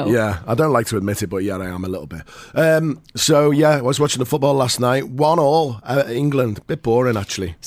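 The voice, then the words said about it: Slightly hoarse voice. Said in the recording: “my voice is a little bit hoarse because I was watching the football last night... And you're sick.”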